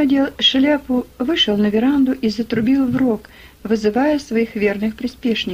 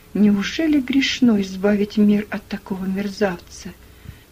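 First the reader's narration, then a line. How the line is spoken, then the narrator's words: Whisper. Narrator (Russian): прошептала она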